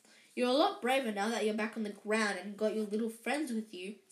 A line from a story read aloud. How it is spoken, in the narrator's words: said Harry coolly